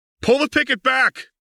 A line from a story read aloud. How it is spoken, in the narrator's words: Lux shouted over the howl of the engines